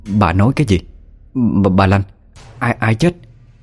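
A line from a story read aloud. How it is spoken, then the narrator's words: Stunned stammering question. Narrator (Vietnamese): bà Chính đứng như trời trồng một lát thì mới có thể lắp bắp hỏi lại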